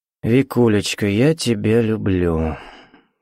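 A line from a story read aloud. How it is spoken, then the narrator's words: Gloomy. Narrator (Russian): мрачно сказал Сергей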